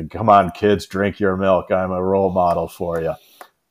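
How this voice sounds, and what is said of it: John Wayne impression. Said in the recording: “your John Wayne impression ... So that's why I'm doing John Wayne.”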